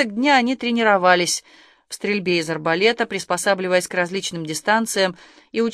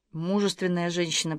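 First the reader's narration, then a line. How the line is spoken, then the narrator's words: Whispering. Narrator (Russian): прошептал Артему Каширский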